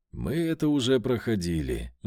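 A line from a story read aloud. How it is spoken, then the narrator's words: Sighing. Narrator (Russian): вздохнул я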